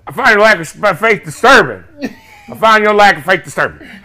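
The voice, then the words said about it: Put-on Baltimore accent, sounds Southern. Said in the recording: “with a Baltimore accent ... Why does your Baltimore sound like he from Louisiana?”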